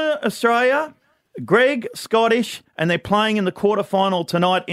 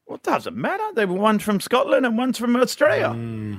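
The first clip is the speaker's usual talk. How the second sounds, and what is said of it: Put-on Scottish accent, slipping Irish. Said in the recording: “What was that accent? ... Scottish and an Irish bit slipped into the middle.”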